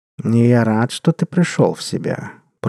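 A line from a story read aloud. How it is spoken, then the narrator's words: Purring cat. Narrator (Russian): промурлыкал кот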